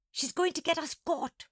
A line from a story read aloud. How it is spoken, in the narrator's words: Monkey gasped